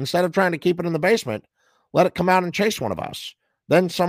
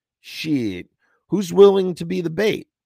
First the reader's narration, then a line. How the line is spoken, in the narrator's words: Neat drawled